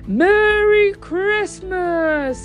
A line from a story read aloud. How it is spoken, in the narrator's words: shouted